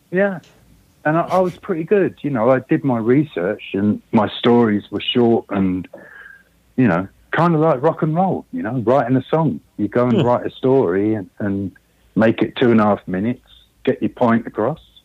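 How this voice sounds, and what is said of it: Strong British accent. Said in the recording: “I can't believe you haven't lost your accent at all. It's still very strong.”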